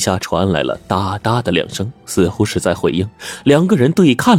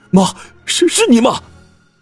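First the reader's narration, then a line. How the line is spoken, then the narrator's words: Hopeful loud shout. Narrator (Chinese): 邓志勇止住了哭声，脸上出现了喜色，大声喊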